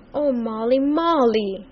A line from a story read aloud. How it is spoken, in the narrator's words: he cried out beseechingly